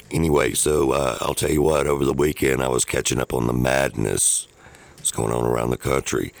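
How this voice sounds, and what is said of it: Tired, worn-out voice. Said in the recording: “my voice is a little tapped out this morning”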